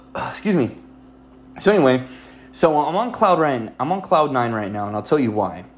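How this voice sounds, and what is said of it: Breathless, out of breath. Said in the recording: “I like I lost all my breath all of a sudden. I'm all out of breath”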